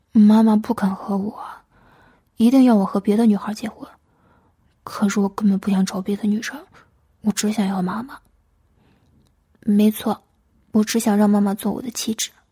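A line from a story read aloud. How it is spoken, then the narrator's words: Sighing, helpless. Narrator (Chinese): 巴德尔叹了一口气，无奈的说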